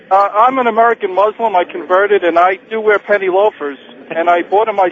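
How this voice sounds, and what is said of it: New York accent. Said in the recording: “You sound like one of the dead end kids ... you sound like a New York guy.”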